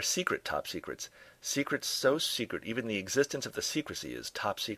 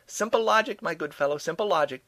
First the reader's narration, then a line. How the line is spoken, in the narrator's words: Doe shouted back